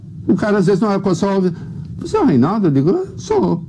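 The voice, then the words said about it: Rural caipira Brazilian accent. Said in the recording (Portuguese): “Reconheci pelo sotaque caipira”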